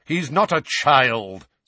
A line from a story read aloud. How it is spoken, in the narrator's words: said Sirius impatiently